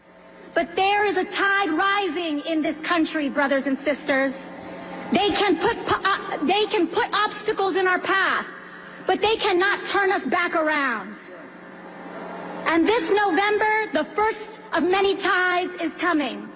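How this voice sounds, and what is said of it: Put-on accent in a speech. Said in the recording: “she puts on another accent today speaking to people in Washington, D.C.”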